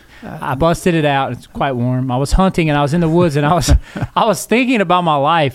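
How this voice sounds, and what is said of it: Stronger Southern Alabama accent. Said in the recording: “Your accent is a little stronger.”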